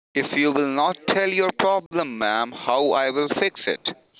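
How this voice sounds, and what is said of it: Foreign-accented English. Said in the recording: “Where is your accent from?”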